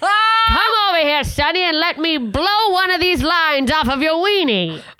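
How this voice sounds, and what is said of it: Old-timey old woman voice. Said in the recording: “There's something about that accent that's very old timey ... That was an old white woman.”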